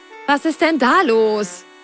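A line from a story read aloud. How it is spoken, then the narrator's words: Called out. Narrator (German): rief Carlotta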